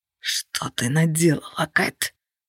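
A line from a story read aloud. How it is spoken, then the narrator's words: Hoarse rasp. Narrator (Russian): прохрипел Влад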